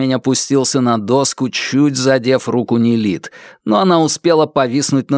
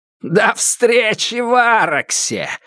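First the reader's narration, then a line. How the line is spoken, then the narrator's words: Loud laughter. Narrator (Russian): захохотал Фаразар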